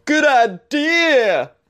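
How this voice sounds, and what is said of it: Exaggerated enthusiastic Florida person voice. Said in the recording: “That was my impression of someone in Florida that thinks dumb things are a good idea.”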